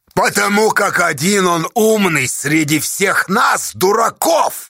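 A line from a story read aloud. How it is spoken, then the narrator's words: Angry old man. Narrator (Russian): зло объявил старец Павел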